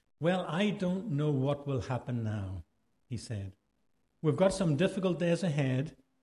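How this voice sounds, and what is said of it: Irish accent. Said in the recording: “let me just read with my Irish accent”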